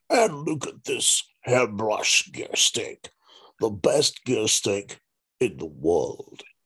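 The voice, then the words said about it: Imitates another person's voice. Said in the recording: “That's an impersonation... That was an impersonation... Jezza and I have a very similar delivery.”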